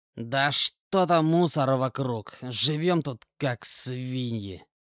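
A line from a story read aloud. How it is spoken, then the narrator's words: Sulky grumble. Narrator (Russian): Скуксившись, проворчал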